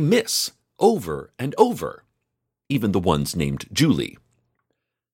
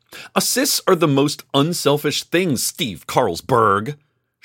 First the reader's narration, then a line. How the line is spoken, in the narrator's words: she shouted